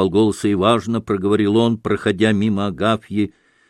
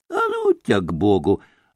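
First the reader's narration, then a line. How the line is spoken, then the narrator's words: Angry snap. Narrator (Russian): огрызнулась уже с сердцем Агафья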